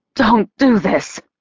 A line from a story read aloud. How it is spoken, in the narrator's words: she said, her voice broken